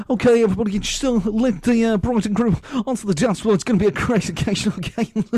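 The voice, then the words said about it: Mimics a party DJ voice. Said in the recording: “do your DJ voice... That's what they sound like.”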